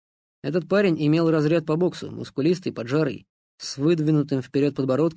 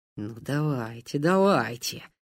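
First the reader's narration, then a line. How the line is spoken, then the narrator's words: Excited whisper. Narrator (Russian): азартно шептал оператор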